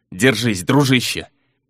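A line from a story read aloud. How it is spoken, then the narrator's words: Growling. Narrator (Russian): прорычал сеньор де Суоза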